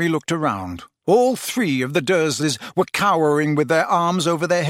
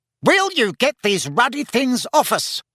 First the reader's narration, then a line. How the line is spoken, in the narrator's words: Uncle Vernon shouted